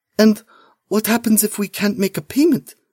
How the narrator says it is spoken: Malina asks, her voice barely a whisper

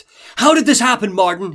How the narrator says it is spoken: He yells, eyes bulging, face turning red, erratic

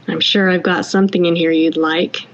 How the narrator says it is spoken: he said

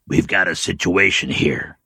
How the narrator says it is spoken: he said in a low voice

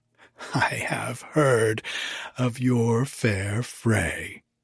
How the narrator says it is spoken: she said

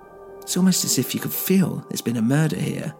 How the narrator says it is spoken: I murmured to myself

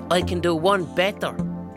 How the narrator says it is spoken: I roar at him

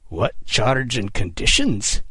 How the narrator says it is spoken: Kidd snarled through gritted teeth

